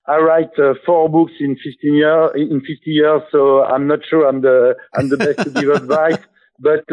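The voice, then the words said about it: Strong French accent. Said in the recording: “my very, very French accent”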